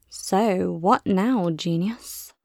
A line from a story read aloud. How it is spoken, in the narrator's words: she mutters to the night